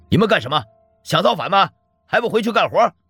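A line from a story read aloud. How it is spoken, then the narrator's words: Shouting. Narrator (Chinese): 任凭他怎么吼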